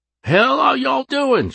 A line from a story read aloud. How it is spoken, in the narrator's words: yelled